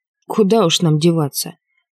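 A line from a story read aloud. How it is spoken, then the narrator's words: Snorting. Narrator (Russian): хмыкнул Штерн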